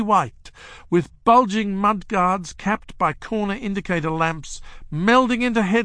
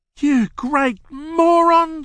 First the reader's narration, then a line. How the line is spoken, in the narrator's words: she cried